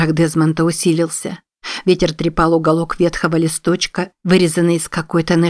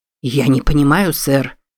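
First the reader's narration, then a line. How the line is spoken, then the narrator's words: Mumbling. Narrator (Russian): пробормотал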